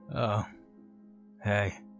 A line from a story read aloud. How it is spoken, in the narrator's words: grumbled